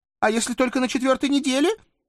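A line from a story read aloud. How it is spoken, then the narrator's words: Weak squeak. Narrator (Russian): Слабо пискнула она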